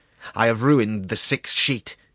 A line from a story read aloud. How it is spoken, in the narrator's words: exclaimed angrily